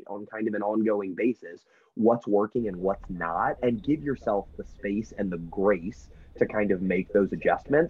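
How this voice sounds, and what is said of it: American accent. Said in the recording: “this American accent of yours”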